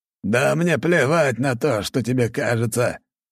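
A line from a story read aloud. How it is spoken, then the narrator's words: Unusually loud, wheeze gone. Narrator (Russian): Его голос стал непривычно громким, а свистящее хрипение исчезло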